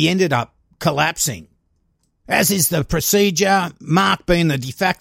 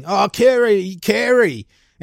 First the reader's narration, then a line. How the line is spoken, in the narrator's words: He was screaming